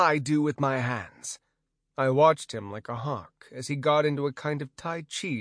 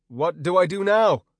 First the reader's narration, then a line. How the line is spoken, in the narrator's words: I yelled nervously